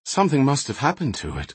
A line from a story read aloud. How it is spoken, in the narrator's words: concluded Shay, sighing heavily